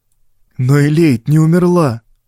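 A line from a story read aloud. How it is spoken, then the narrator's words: Desperate plaintive youthful objection. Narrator (Russian): в отчаянии жалобно возразил юный Фариом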